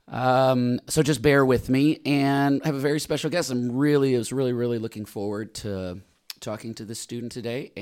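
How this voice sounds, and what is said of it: Deep, smooth voice from illness. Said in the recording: “I have been sick, so I have this weird voice. ... I sound like I should be an overnight smooth jazz DJ”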